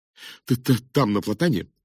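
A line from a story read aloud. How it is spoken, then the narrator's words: Slightly stammering. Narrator (Russian): слегка заикаясь, проговорил он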